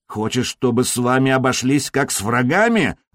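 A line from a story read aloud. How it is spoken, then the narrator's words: Growled in Slovenian. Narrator (Russian): рыкнул он по-словенски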